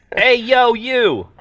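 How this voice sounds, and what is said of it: Put-on Brooklyn accent. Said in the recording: “I'm a drow with a weird Brooklyn accent.”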